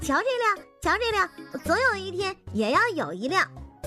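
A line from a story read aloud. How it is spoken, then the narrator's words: Excited small child. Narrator (Chinese): 铁蛋5岁的儿子对摩托车有着强烈的爱好，只要看见一辆摩托车，他就会高兴的哇哇直叫，并且激动地说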